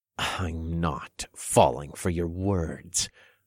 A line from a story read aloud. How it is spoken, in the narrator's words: I sneered